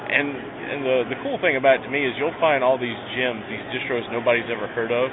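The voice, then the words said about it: Southern American accent. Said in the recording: “you have the southern accent.”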